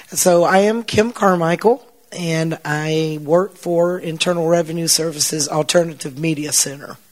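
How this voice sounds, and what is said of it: Hoarse, strained voice. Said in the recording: “I was losing my voice.”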